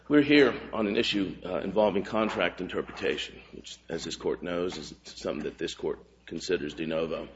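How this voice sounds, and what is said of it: Rough, sick-sounding voice. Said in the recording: “apologize for my voice. I'm fighting off a bit of a cold.”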